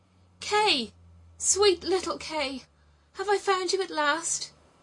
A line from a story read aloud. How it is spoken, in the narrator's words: cried out